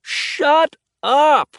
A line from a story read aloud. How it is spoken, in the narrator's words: Alex yells, cutting off whatever else Henry was saying